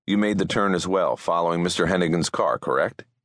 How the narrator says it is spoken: he asked

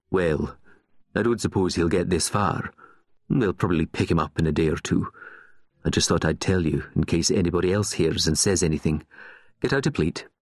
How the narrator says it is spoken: In the same flat tone, went on

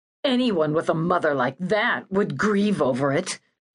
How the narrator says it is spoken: snarled

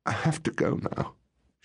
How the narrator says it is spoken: she sobbed

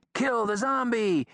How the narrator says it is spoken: Somebody yelled

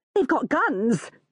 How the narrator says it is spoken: says wildly

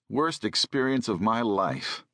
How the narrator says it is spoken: sighed

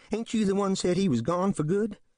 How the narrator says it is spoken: he complains nervously

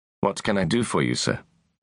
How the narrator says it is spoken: asked

